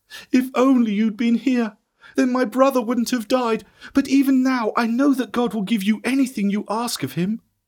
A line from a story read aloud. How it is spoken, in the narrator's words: cried when she saw